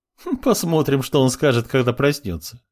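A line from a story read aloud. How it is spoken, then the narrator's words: Laughing girl. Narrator (Russian): хохотнула девушка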